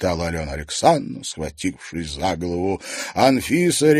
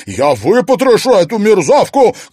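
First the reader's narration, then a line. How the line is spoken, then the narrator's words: Shouting. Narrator (Russian): кричала Марьяна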